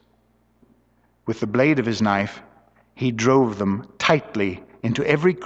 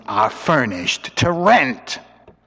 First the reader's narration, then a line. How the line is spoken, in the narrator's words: Purdy in her furriest tones